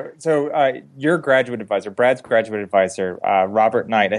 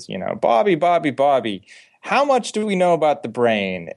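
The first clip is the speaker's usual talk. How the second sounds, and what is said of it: Put-on New Jersey accent. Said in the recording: “they're from New Jersey, by the way, which is why I'm framing a New Jersey accent.”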